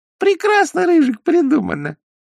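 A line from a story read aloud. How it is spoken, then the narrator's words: Thin squeaky voice. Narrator (Russian): запищал откуда-то тоненький голосок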